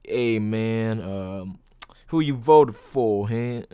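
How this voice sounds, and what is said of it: Put-on Atlanta African American accent. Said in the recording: “he actually had like an Atlanta, like, fucking African American accent ... my impression of African Americans are really bad, but I wasn't trying to be good”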